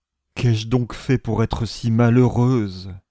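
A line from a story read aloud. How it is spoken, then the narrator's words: Tearful moan. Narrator (French): gémit-elle, paupières qui commençaient à se gonfler de larmes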